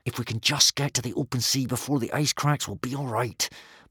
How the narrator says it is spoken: muttered Hiccup to himself

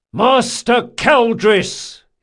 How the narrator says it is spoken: bellowed

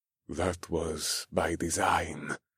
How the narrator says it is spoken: the old man muttered

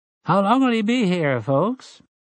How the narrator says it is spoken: He asked in a marginally cordial voice

